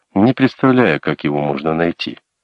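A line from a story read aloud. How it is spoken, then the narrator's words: Calm interruption. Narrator (Russian): спокойно перебил ее Колин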